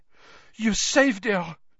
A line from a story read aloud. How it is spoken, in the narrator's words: she said breathlessly